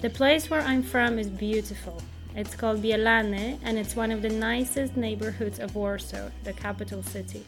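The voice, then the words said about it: Polish-accented English. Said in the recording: “The Polish English accent.”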